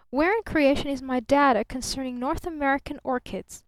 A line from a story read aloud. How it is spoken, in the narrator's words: called sharply from the next room